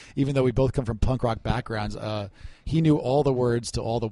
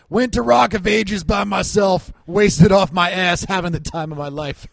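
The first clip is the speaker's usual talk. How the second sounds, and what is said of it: Impression of a drunk friend. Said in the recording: “a pretty good impression”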